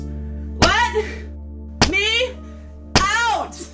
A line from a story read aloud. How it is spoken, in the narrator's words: She shouted, striking the door with each word